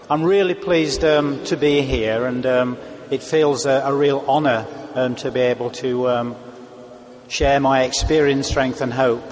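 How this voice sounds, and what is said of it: Speaks with a noticeably different accent. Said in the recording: “I think you'll find my accent just a little different”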